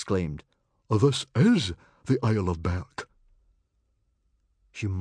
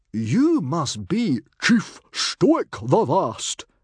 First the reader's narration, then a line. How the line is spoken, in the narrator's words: cried Stoic the Vast